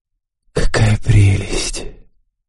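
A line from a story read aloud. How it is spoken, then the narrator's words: Whisper. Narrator (Russian): Спутница мужчины прошептала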